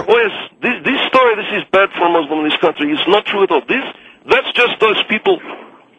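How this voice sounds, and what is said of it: Thick foreign accent, hard to understand. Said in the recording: “You got a thick accent, sir, and I'm trying to understand you.”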